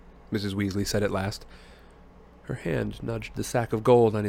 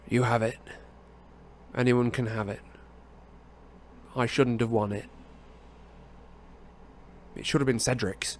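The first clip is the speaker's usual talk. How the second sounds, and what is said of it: Flat, expressionless voice. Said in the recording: “in an expressionless voice.”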